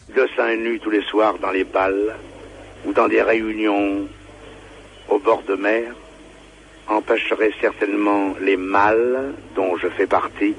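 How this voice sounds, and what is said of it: Marseille accent. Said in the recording (French): “un Marseillais célèbre ... vous allez reconnaître sa voix et son accent”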